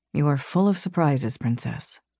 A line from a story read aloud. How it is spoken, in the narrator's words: he murmured